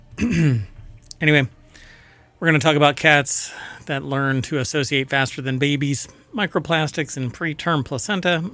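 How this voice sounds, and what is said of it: Strained, hoarse voice. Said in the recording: “I'm already losing my voice. I've been talking a lot.”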